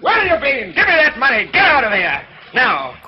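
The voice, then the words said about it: Shouting angrily. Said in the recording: “Don't shout! ... You are!”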